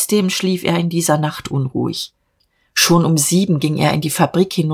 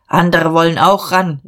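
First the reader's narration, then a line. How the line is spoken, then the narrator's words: Calling out. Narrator (German): rief er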